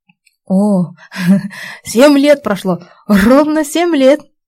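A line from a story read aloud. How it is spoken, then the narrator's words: Loud laughter. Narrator (Russian): громко расхохотался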